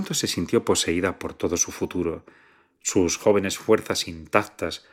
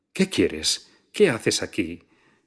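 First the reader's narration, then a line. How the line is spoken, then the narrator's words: Nervous exclamation. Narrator (Spanish): exclamó con nerviosismo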